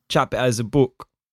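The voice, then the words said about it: Put-on South African accent. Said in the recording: “So that is South African. You're doing a South African accent. ... It's like half American, half New Zealand.”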